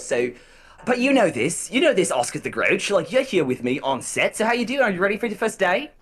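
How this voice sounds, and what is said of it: Lower-pitched Australian-style accent. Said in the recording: “You can try your Australian accent, but lower.”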